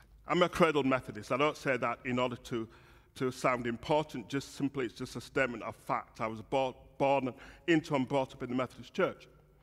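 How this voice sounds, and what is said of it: Yorkshire English accent. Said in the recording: “this is a Yorkshire accent”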